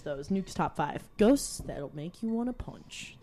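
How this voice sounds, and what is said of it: Impression of Nuke's Top 5 narrator. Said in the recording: “That was my best impression. I think he's Canadian.”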